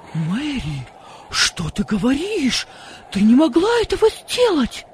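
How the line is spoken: Frightened exclamation. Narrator (Russian): воскликнул отец с испугом

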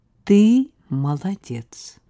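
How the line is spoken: Drawling. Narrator (Russian): протянула статью Саша

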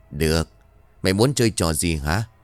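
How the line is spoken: Sighing. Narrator (Vietnamese): Lão Vầu và Sột thở dài

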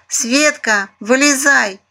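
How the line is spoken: Shouted. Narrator (Russian): прокричала Айзулидзе

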